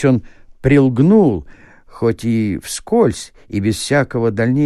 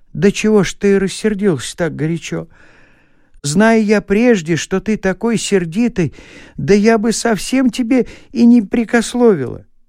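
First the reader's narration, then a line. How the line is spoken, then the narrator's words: Almost pleading. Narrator (Russian): она произнесла уже почти просительным голосом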